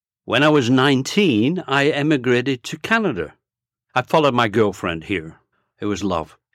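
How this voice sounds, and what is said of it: Lancashire English accent. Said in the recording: “In 1949, I moved to Bolton, Lancashire. That's where I grew up. That's where I picked up my accent.”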